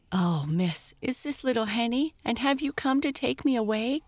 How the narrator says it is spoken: gasped Bertha

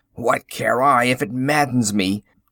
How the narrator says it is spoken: said the farmer with a bitter laugh

